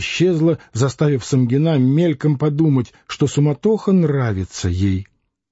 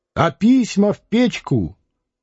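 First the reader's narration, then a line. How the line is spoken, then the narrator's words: Shouting through a door. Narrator (Russian): Сомова ... крикнула в дверь комнаты Варвары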